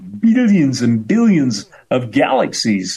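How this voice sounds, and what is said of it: Imitates another person's voice. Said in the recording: “my best impression of him”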